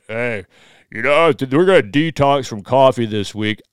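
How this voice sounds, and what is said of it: Imitates another person's voice. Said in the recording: “this is my Ben Greenfield impersonation.”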